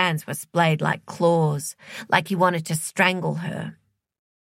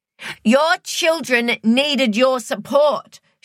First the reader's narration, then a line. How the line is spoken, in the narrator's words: shouted back